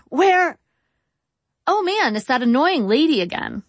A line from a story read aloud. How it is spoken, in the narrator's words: I said brightly, trying to defuse the situation